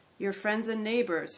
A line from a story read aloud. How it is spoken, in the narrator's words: sighed to himself